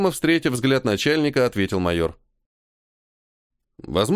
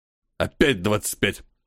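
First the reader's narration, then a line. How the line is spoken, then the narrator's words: Irritated exhale, colonel. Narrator (Russian): Раздраженно выдохнул полковник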